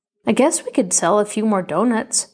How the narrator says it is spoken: said Homer

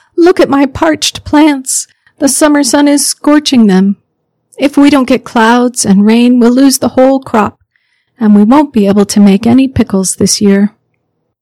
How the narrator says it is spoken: Grandmother Penelope cried

